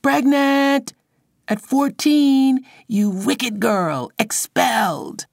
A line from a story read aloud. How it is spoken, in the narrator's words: scream